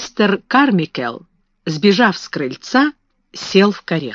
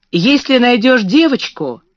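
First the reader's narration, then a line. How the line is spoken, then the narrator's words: Shout. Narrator (Russian): крикнул Гюй Кларенс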